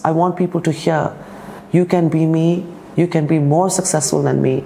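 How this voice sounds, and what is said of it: Speaks English with a foreign accent. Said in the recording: “in my accented voice”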